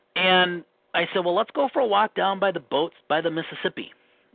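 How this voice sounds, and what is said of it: Minnesota accent. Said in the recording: “There's my Minnesota accent, boats.”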